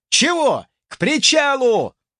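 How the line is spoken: Angry shout. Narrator (Russian): злобно выкрикнул собеседник

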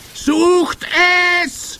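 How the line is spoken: Witch screaming. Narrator (German): schrie die Hoch- und Großmeisterhexe

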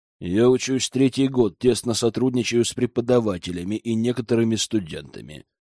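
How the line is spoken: Calm reply. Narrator (Russian): спокойно отвечала ведьма

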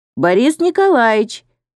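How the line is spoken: Loud call. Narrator (Russian): громко окрикнул Саруханян

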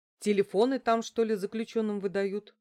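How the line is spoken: Agitated grumble. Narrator (Russian): буркнула я, взбудораженная новостью

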